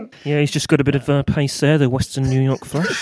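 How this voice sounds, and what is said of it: Imitation of Alan Smith's accent. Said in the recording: “do that in Alan Smith's accent”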